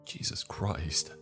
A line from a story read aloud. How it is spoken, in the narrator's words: I muttered to myself